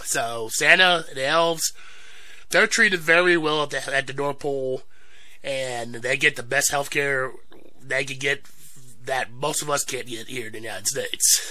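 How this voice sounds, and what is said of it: Voice sounds sick with a cold. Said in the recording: “sorry for the cold, sorry for my voice”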